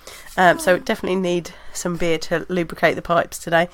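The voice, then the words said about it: Hoarse, fading voice. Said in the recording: “am losing my voice, not because of any illness, but because of the time of year it is, and my hay fever is trying to kill me”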